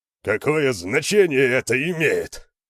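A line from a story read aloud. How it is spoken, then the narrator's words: Barked. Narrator (Russian): рявкнул Хьялмар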